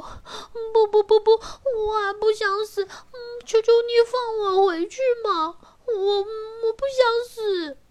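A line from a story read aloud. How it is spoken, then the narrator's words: Crying, pleading. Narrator (Chinese): Pinocchio 一边哭 说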